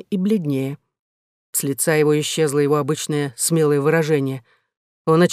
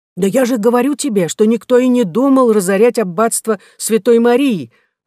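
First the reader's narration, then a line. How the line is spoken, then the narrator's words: Exclaimed. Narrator (Russian): воскликнул Вудкок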